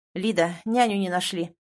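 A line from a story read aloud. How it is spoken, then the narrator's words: Gloomy. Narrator (Russian): мрачно произносит босс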